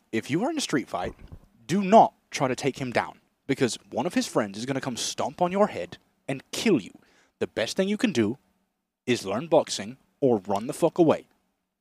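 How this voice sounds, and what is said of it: Impression of Tristan Tate. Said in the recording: “That's a good Tristan. ... A really good Tristan. I can differentiate between Tristan and Andrew. ... that impression”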